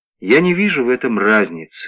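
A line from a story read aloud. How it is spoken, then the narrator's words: Weary reply. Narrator (Russian): ответил он устало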